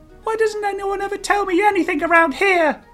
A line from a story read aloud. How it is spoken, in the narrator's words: Jay asked, whining slightly